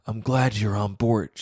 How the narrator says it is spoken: says

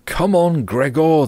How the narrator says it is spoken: they should have shouted

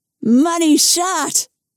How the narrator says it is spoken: cried Nikki

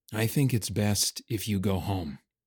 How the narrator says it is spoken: Laban said softly

